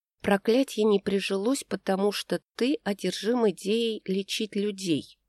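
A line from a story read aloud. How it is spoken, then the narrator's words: Whisper. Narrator (Russian): прошептала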